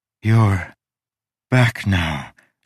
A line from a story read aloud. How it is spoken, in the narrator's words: she panted